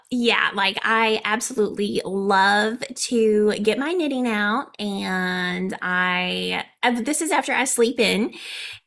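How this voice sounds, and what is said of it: Country accent, failed Valley Girl attempt. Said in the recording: “That didn't even sound Valley Girl. I cannot get rid of the country accent, can I?”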